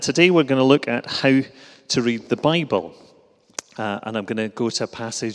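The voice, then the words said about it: Glasgow Scottish accent. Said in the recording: “you'll recognise the accent, perhaps, as being from Glasgow”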